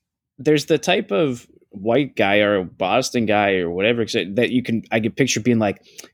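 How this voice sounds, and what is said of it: Usual voice. Nothing is said of it.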